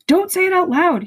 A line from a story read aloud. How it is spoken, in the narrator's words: he yelped